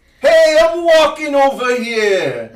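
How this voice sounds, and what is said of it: Put-on New York accent. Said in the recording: “That's a perfect New York accent.”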